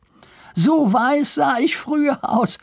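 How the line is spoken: Laughing. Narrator (German): fügte lachend hinzu

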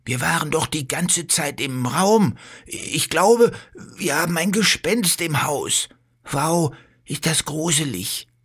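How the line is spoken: Fearful. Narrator (German): sagt Bello und schaut sich ängstlich um

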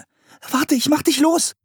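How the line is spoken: Calling out. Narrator (German): rief Anne

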